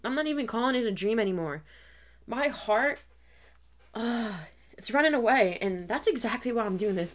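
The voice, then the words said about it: Emotional, choked-up voice. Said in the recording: “I'm getting emotional,”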